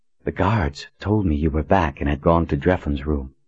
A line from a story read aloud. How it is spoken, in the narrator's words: Colin whispered to him